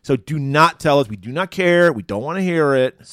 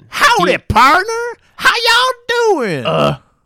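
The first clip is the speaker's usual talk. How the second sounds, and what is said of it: Exaggerated put-on American accent. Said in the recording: “that's his offensive American accent. ... He's like an Englishman playing an American.”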